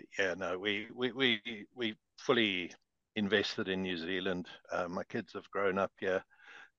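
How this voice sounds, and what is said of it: South African accent. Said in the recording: “we have South African accents”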